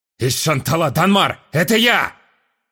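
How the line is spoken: Loud barking shout. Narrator (Russian): Рявкнул он, пытаясь докричаться до моего разума

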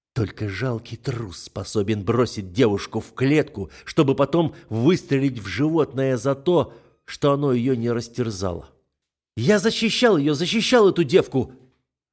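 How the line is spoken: Hissed, spitting blood. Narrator (Russian): Отплевывая кровь, прошипел Али

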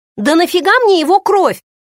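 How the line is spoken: Exclamation. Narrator (Russian): воскликнула я

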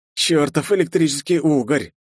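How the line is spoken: Angry mutter. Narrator (Russian): зло пробормотал я

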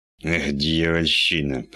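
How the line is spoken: Through gritted teeth. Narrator (Russian): процедил Кремер

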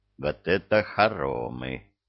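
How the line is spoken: Surprised mutter. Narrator (Russian): пробормотал Люцифер, удивленно

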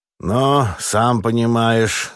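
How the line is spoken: Sullen, forced out. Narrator (Russian): набычась выдавил Астахов

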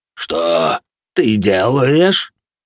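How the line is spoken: Low growling voice. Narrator (Russian): спросил он низким рычащим голосом

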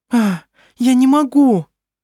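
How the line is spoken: Frightened. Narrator (Russian): испуганно произнесла она

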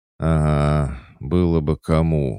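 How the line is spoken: Sigh. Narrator (Russian): вздохнул Толик

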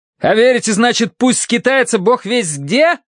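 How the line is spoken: Yelled. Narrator (Russian): заорал я

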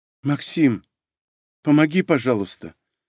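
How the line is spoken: Trembling voice. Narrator (Russian): продолжила дрожащим голосом

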